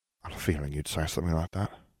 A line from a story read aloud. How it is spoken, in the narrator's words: he murmured